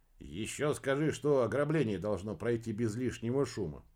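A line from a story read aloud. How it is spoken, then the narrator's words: Grumbled. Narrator (Russian): проворчал Генри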